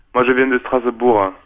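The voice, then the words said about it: Poorly imitated Marseille French accent. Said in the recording (French): “avec un accent marseillais ... c'est une imitation un peu pourrie”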